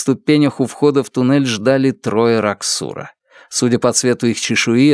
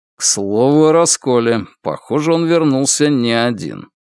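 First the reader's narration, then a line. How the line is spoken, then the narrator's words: Gloomy. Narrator (Russian): мрачно произнес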